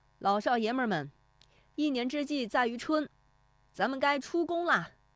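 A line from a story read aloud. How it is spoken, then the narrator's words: Shout. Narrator (Chinese): 石德义 他的喊声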